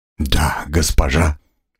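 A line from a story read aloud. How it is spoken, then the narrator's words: Serene tone. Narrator (Russian): безмятежным тоном произнес Шаран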